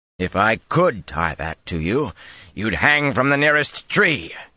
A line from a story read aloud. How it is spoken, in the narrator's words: he growled